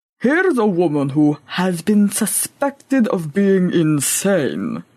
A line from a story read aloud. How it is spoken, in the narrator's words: he grumbled aloud